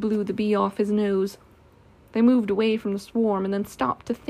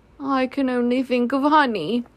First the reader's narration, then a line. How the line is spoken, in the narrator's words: said Pooh sadly